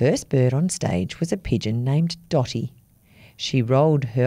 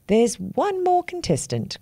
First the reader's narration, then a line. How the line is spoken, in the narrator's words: cried the big black crow